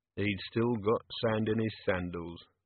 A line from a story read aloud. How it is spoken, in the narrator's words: murmured Vimes